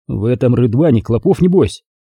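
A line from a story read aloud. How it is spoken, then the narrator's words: Muttered. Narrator (Russian): пробормотал Дмитрий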